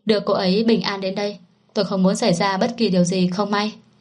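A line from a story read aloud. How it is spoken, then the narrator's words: Stern male voice. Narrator (Vietnamese): giọng nam kia chợt chuyển thành nghiêm nghị nói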